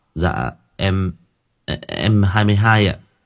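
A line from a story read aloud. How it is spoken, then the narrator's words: Stammering. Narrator (Vietnamese): Lâm lắp bắp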